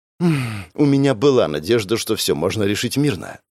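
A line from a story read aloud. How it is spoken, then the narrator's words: Sighing. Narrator (Russian): вздохнула женщина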